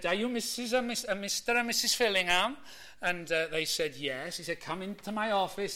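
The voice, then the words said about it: Imitated Welsh accent. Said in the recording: “genuine son of Wales ... I'll stop doing the accent there before I offend anybody from Wales”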